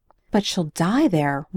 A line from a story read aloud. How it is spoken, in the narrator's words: Raina cried